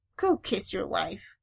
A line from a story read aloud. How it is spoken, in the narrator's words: Shuri dismissed, fighting a smile